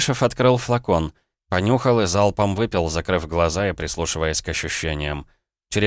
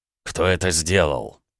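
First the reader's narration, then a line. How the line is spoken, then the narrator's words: Involuntary growling voice. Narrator (Russian): Помимо воли в голосе проявились рычащие звуки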